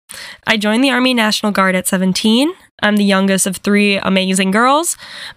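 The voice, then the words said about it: Minnesota accent. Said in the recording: “I am from the beautiful frozen tundra of Minnesota ... Sorry, not sorry for the accent. You will hear it, I guarantee.”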